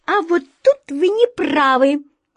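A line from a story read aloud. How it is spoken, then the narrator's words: Fearless exclamation. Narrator (Russian): бесстрашно воскликнула птичка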